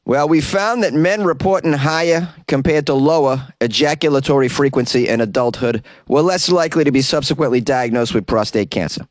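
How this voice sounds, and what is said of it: Put-on Boston accent. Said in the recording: “why did ... use a Boston accent for that researcher?”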